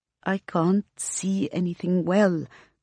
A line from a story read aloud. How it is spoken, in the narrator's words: Queen says in a hushed tone